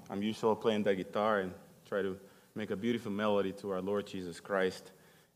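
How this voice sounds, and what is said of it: Speaks with a noticeable accent. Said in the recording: “my accent and all that ... you'll get used to my accent”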